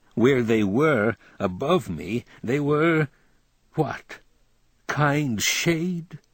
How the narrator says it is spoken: I laughed, a tearful howl

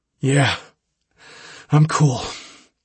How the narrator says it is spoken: I gasped

